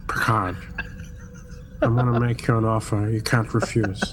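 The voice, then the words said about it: Marlon Brando impression. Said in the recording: “The worst Brando impression of all time. ... It was actually not that bad.”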